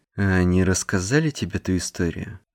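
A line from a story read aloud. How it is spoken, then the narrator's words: Calm. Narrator (Russian): Мэтт произнес это спокойно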